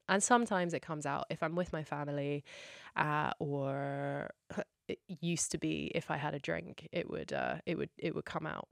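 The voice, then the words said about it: Well-spoken English accent. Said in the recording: “I ended up just having this very like well-spoken English accent”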